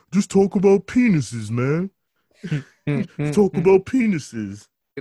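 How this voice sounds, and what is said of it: Imitates another person's voice. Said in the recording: “this is like me trying to go into Donald Glover's Tracy Morgan impersonation.”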